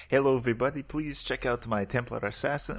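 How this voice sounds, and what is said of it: Fake vague Eastern European accent. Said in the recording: “What is his accent? ... vaguely what? Eastern European ... it was the most fake, nondescript Eastern European bullshit I could come up with”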